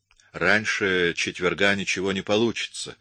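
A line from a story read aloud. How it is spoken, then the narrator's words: Plain. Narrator (Russian): ответил я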